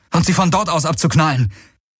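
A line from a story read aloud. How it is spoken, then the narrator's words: Called out. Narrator (German): rief Garlen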